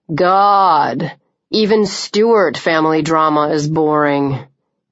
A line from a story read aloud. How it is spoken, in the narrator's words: Clancy said sullenly